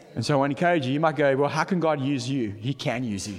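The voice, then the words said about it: South African Durban accent. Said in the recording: “my Durban accent.”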